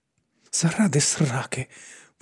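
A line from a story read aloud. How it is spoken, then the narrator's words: Muttered. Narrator (Ukrainian): пробурмотіла Лора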